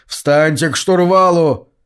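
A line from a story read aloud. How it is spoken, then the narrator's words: Shout. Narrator (Russian): Индеец крикнул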